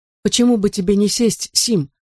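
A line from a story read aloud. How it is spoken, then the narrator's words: Plain question. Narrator (Russian): спросила миссис Сирс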